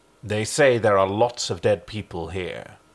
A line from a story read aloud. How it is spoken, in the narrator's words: she replied coldly